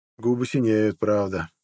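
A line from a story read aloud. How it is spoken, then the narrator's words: Dejected, sinking voice. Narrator (Russian): упавшим голосом проговорил Харлд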